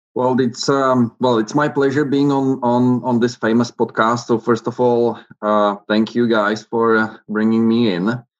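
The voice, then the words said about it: Czech accent. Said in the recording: “we could probably do a whole interview and tell our listeners that we were interviewing Dominik Hasek today ... you're based in the Czech Republic right now, and love your accent”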